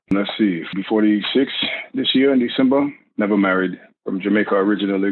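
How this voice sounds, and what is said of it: Noticeable accent. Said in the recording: “do you hear that accent? People love accents.”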